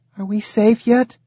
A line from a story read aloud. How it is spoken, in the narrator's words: Zoe asked, her voice muffled from her head being buried in Sagan's neck